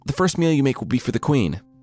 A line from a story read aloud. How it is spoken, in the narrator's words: he shouted through the door